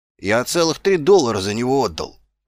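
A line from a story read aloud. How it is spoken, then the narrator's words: Brother muttering. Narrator (Russian): пробормотал брат-туговодц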